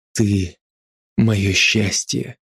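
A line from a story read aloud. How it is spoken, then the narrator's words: Breathless close whisper. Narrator (Russian): пытаясь выровнять сбившееся дыхание, шепнул мне в губы Андрей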